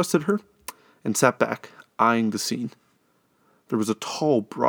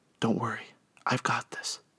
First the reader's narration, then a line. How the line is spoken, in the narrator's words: she whispered